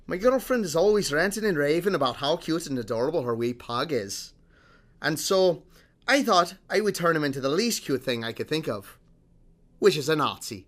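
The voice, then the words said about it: Put-on Scottish accent. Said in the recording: “in my best Scottish accent that I can muster here”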